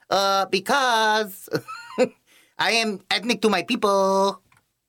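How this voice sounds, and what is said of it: Thick put-on Sonia Sotomayor accent. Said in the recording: “I don't know if she has that thick of an accent, but we're gonna go with it. I just imagine Sonia Sotomayor ... she'd be like a bad Selma Hayek ... Why do you have an accent like that?”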